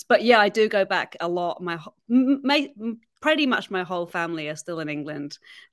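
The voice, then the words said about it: English accent. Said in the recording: “I love the accent. ... Do you go back to England to get your English accent back? ... with an English accent.”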